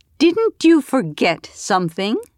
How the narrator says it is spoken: said in a loud voice, not bothering if anyone else heard

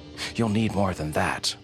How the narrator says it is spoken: Rick says quickly

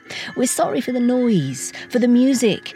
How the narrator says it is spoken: say the staff, laughing

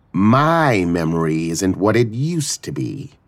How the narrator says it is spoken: Etha drawled

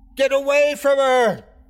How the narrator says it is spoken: I screamed

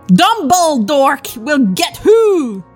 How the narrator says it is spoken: Draco shouted

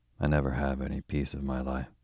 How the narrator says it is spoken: sighed Kitty, feeling that her lot was a hard one

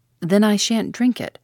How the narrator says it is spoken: said Tuppence firmly

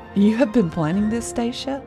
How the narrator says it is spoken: He laughed

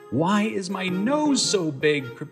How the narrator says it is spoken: Pinocchio cried out

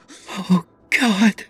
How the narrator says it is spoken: she breathed

